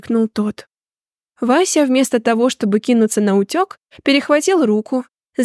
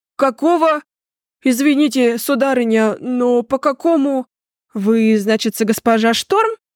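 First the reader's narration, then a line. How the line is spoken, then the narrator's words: Confused mumble. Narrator (Russian): растерянно промямлил держиморда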